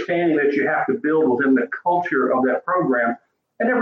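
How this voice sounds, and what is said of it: Usual voice. Nothing is said of it.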